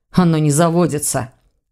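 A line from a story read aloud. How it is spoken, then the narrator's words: Nervous, hurried snap. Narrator (Russian): огрызнулся Ваня, нервничая все больше и от этого торопясь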